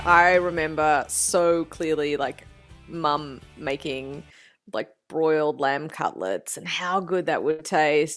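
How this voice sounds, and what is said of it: Australian accent. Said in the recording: “with an Aussie accent”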